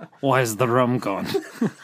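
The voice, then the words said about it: Jack Sparrow pirate impression. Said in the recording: “I'll do my Jack Sparrow impression”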